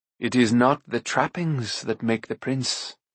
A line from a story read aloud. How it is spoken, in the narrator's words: he said gently